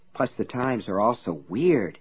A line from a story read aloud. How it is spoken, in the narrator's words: he muttered